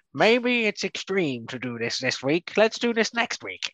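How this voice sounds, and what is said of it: Imitates another person's voice. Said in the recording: “my bad impression”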